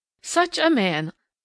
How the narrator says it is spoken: laughed good-natured Mrs

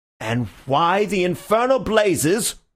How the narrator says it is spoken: roared the other

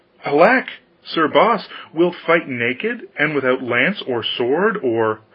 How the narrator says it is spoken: The queen exclaimed

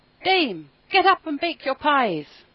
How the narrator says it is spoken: First and loudest the cocks cried out

